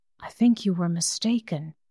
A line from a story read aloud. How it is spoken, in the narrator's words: Menyon whispered finally